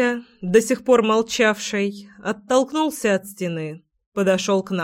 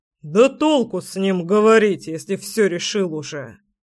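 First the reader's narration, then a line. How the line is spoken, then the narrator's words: Angry, father. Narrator (Russian): Зло произнес папка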